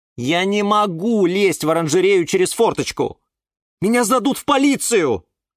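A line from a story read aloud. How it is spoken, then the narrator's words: Sighing. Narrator (Russian): вздохнул Юра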